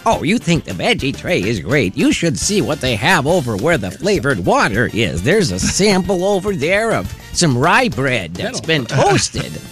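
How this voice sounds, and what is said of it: Old lady voice. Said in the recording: “old lady voice”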